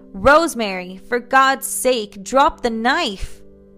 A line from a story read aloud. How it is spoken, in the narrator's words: He would shout to the nurses